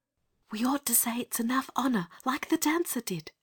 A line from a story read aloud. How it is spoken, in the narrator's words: whispered